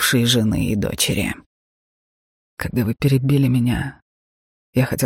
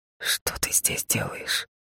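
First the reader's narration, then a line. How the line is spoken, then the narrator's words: Quiet question. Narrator (Russian): Тихо спросил я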